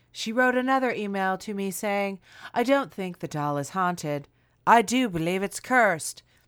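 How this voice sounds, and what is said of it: Put-on accent while reading. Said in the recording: “where did this accent come from? ... please keep it up”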